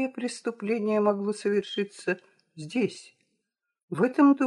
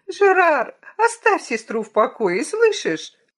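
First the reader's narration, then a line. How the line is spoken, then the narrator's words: Shrill yet weary. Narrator (Russian): Голос визгливый и в то же время усталый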